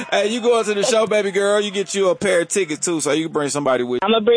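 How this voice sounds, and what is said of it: Usual voice. Nothing is said of it.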